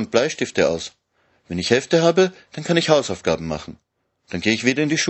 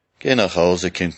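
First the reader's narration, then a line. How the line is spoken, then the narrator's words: Murmurs. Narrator (German): murmelt sie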